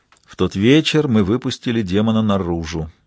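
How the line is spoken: Gloomy. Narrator (Russian): мрачно сказал он

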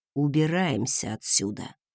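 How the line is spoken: Quiet command. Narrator (Russian): тихо скомандовал тот

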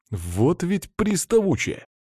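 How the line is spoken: Indignant. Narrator (Russian): возмущенно произнес я

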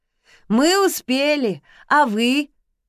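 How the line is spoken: Boys shouting together. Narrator (Russian): в голос прокричали мальчики

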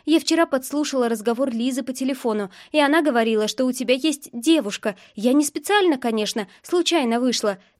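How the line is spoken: Rapid chatter, blushing. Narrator (Russian): тараторит краснее

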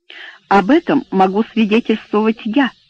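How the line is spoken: Plain. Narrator (Russian): сказал ему Эбботт

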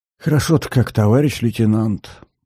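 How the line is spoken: Whisper. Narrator (Russian): прошептал сержант

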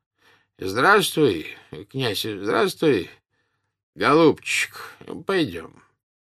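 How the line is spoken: Said wearily. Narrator (Russian): устало проговорил

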